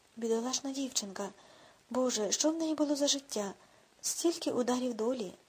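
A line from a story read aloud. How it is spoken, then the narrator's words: Mother's sigh. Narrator (Ukrainian): зітхнула мати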